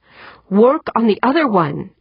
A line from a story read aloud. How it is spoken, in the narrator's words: Eberly pleaded